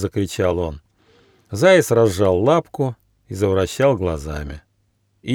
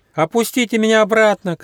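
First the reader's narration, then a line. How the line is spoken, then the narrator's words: Little hedgehog shouting. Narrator (Russian): крикнул ежонок Почемучка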